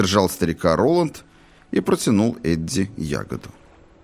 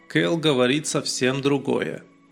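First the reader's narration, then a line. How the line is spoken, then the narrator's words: Even voice. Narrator (Russian): ровным голосом ответил Дипна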